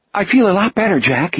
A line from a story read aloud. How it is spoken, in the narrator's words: he said hastily